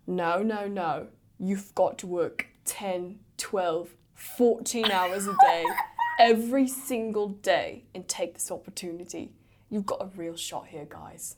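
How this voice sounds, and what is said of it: Simon Cowell impression. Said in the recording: “Dude, that was such a good Simon Cowell.”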